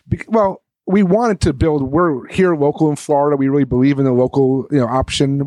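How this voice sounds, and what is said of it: New York accent. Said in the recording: “I'm a New Yorker. If you couldn't hear the accent”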